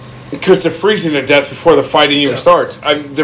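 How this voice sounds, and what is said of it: Usual voice. Nothing is said of it.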